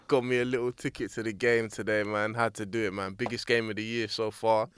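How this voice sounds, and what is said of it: Strained, worn-out voice. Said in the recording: “preserve what left of my voice I have ... My voice is suffering”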